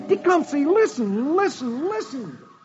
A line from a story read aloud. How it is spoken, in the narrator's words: Dick continues to plead